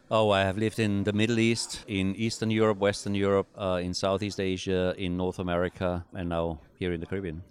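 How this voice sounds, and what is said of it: Austrian-accented English. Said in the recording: “So you said you're from Austria ... we hear your accent.”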